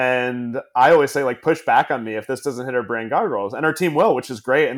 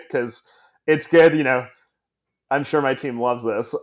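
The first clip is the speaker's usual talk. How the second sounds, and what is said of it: Sarcastic tone. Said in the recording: “saying this sarcastically”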